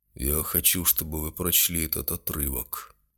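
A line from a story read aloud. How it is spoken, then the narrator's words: Muffled, hollow voice. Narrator (Russian): глухо промолвил Гудой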